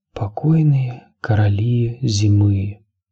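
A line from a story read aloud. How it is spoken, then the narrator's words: Whisper. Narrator (Russian): прошептал Бран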